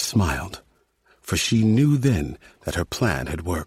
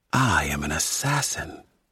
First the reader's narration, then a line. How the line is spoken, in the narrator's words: she hissed, speaking through the hollow fragment of petrified tree to disguise her voice